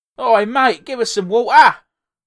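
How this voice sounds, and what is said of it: Put-on Cockney accent. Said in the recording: “I think he's gone kind of back to Cockney.”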